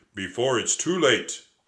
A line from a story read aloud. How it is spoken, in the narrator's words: the giant gladiator boomed